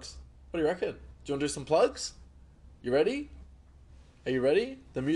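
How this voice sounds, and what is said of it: Usual voice. Nothing is said of it.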